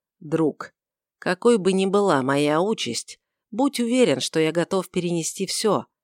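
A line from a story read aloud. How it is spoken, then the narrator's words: Soft, gentle. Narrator (Russian): Варавва мягко проговорил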